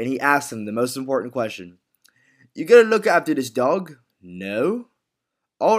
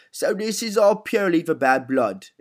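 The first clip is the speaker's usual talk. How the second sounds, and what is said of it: Impression of Alfie from Peaky Blinders. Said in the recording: “This here down goes Alfie. Let's hear him. ... Here's my here's here's here's the last impersonation.”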